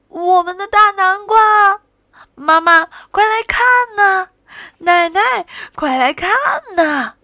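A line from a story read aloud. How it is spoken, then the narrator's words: Joyful shouting. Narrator (Chinese): 高兴的呼喊声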